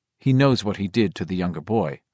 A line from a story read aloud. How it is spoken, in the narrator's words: Father O'Brien said